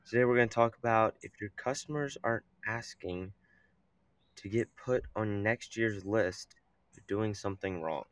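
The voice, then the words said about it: Scratchy, hoarse voice. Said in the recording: “my voice is a little scratchy there”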